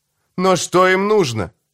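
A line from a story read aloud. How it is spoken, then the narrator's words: Exclaiming. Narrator (Russian): воскликнул я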